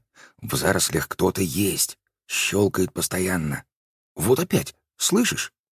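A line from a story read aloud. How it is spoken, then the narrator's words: Quiet, playful. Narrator (Russian): шутливо, тихонько произнесла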